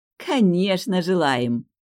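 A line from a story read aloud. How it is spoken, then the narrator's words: Delighted exclamation. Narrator (Russian): Восхитилась синеволосая сеньора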